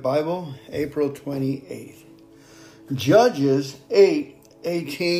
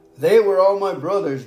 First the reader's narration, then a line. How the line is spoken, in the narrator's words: Gideon exclaimed